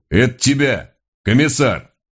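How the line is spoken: Deep bass voice. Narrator (Russian): тот же голос пробасил

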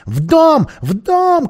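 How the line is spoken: Angry shouting. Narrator (Russian): кричал он, проклиная товарищей за медлительность

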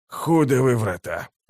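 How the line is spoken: Breathed out, violinist. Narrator (Russian): выдохнул скрипач

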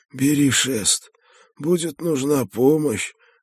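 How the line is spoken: Hoarse reply. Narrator (Russian): хрипло ответил он из темного провала капюшона

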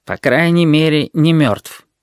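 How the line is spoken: Gloomy. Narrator (Russian): ответил Клоподав мрачно

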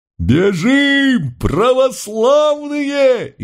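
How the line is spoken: Frantic scream from crowd. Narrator (Russian): Истошно завопил кто-то из самых первых рядов

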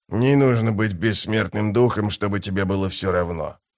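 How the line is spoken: Muttered. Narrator (Russian): пробормотал он

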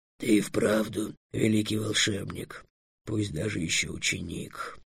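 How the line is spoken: Muttered, dragon. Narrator (Russian): пробормотал дракон

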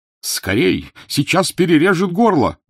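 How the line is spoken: Urgent shout, doctor. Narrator (Russian): крикнул доктор

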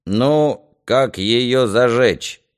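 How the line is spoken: Displeased creak. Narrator (Russian): недовольно проскрипел Ерема

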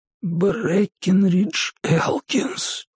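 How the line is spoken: Rustling, barely audible. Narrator (Russian): прошелестел он едва слышно

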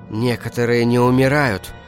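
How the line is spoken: Whispered. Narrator (Russian): прошептала она

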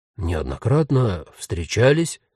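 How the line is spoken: Confused question. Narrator (Russian): растерянно переспросил ее новый знакомый

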